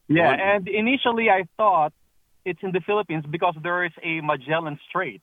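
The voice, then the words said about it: Filipino accent. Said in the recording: “I love your accent. ... I am from the Philippines.”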